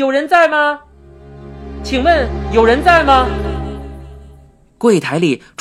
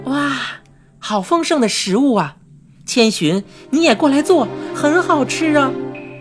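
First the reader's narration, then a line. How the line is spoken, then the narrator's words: Mother exclaiming in admiration. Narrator (Chinese): 看到这么丰盛的食物，妈妈也忍不住的感叹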